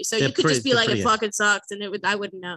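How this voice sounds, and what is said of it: Slips into a Boston accent. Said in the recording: “sucks became socks ... I got my Boston accent.”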